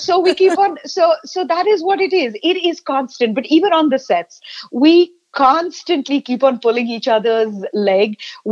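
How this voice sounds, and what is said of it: Accent with distinctive V and W sounds. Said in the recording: “My leg is pulled on a regular basis for my V's and my W's ... jealous of my sexy accent”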